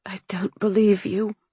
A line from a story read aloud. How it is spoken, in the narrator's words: I whispered, seething